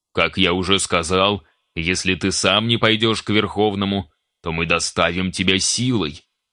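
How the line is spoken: Deep bass voice. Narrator (Russian): пробасил абориген

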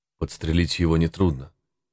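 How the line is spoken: Quiet voice. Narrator (Russian): сказал зверобой тихим голосом

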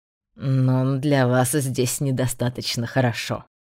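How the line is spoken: Scoffing snort. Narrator (Russian): хмыкнул

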